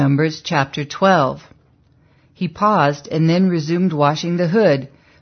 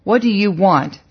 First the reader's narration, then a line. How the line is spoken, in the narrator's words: she asked stiffly